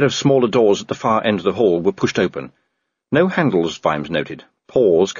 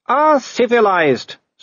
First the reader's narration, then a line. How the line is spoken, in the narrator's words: said Wolfgang cheerfully